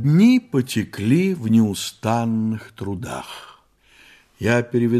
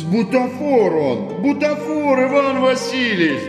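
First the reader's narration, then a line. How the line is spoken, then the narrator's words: Groaning plea. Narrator (Russian): Застонал Фома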